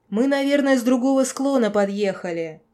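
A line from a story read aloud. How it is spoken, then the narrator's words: Hurried yelling. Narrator (Russian): орал спешащий ко мне Тед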